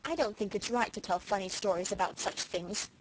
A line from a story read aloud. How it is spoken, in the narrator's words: said Felicity coldly